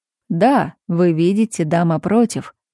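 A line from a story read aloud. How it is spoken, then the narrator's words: Mocking. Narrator (Russian): насмешливо подхватил мушкетер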